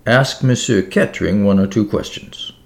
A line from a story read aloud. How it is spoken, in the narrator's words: murmured Poirot